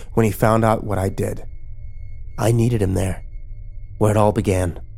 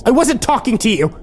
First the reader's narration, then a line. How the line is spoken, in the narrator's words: Kimber yelled at me